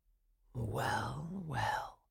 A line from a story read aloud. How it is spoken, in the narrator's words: muttered Coppelius